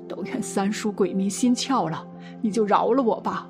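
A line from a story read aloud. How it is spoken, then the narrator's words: Crying, pleading. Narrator (Chinese): 木匠 哭道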